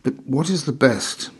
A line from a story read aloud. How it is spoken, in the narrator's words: he would inquire anxiously